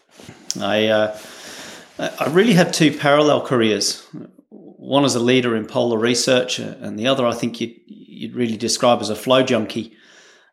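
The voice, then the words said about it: Australian English accent. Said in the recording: “As you can probably tell from my accent, I'm based in Australia.”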